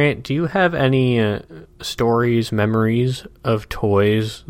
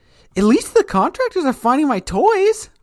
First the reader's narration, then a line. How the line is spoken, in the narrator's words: the one on the top bunk is saying, kind of excitedly